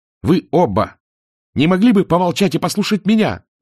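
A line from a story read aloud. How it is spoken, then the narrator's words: Yelling. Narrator (Russian): заорал Мор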